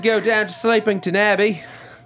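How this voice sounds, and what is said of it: Good put-on Australian accent. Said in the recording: “That was actually a very good Australian accent.”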